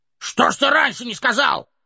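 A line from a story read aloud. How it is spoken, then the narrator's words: Group shouting. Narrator (Russian): закричали гномы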